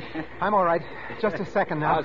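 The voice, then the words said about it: Out of breath, panting. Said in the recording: “out of breath, panting ... Where's the old wind”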